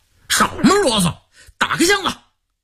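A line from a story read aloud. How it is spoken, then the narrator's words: Stern, harsh shout. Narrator (Chinese): 黑瞎子的圆脸拉成了长脸，厉声喝道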